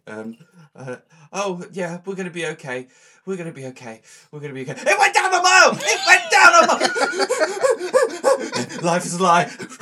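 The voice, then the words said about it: Mocking impression of a friend. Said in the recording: “your impression of me when I was in the car”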